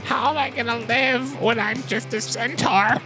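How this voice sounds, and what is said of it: Imitates another person stressing out. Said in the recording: “do an impression really? Of me stressing out.”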